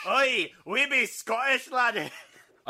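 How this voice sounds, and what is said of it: Put-on Scottish accent. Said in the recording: “this is supposed to be Scotland and neither of us have a Scottish accent”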